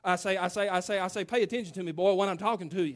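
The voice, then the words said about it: Foghorn Leghorn-style impersonation. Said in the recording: “Foghorn Leghorn ... That was an impersonation of my papa, by the way. He talked the same way.”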